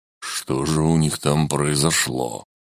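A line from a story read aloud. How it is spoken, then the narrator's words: Muttered. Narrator (Russian): пробормотал Келиэль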